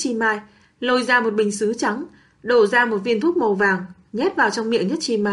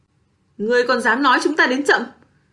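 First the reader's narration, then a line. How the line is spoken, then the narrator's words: Angry shout. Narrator (Vietnamese): Bạch Ngọc Đường nhất thời dậm chân giận dữ quát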